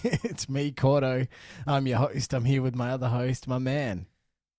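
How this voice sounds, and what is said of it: Sick, strained voice. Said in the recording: “my voice is blowing ... The sickness is back.”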